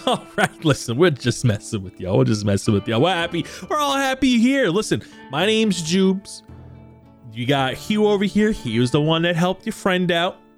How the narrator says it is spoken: The other four start to laugh, and they go

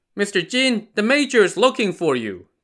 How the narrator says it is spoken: the attendant shouted

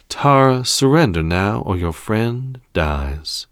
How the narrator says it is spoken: spoke calmly, as if he weren't holding the life of someone in his hands

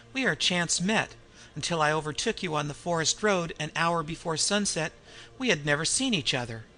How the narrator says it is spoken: laughed the Frenchman

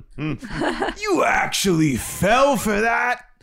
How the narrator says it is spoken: Genghis roared with laughter

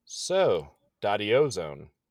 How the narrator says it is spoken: she chuckles

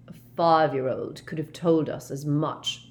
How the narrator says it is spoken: sneered Snape

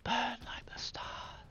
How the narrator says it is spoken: Behind him, he heard her whisper

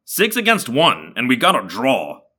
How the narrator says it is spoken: Marco said angrily

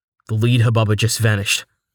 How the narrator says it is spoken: Rain said, his voice calm yet urgent

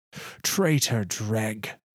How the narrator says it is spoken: Phylax hisses and spits

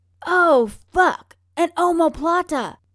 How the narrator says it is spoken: Ryan shouts

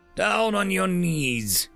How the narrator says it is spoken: shouted Reggie

